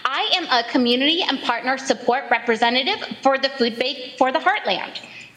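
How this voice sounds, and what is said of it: Chipper Midwestern accent. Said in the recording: “you sound like a chipper Midwesterner”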